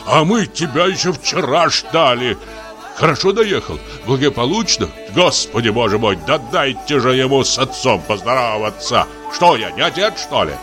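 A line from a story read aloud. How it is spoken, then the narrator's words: Deep bass roar. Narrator (Russian): Ревел басом милорд огромный черный пес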